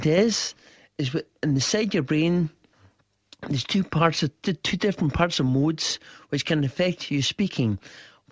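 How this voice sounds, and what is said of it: Foreign-sounding accent. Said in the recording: “You didn't always speak with this foreign accent you're talking to us.”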